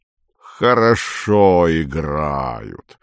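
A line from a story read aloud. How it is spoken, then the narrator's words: Deep bass voice. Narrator (Russian): сказал Панин басом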